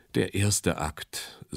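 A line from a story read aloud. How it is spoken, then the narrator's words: Sighed. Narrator (German): seufzte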